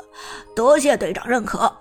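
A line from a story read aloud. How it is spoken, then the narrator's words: Sheepish chuckle. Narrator (Chinese): 旺财嘿嘿一笑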